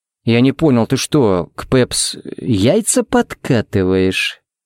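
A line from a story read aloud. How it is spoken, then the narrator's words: Menacing drawl. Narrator (Russian): протянул он угрожающе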